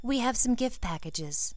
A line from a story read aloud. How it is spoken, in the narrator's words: Ginny said calmly